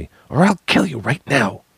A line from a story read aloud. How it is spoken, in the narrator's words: she whispered fiercely